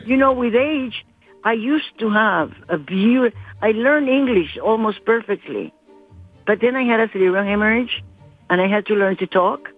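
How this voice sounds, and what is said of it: Non-native accented English. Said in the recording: “my accent is not horrible? ... your accent's great ... I learned to talk with an accent again”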